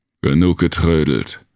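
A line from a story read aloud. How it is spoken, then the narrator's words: Bellowed. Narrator (German): brüllte Jig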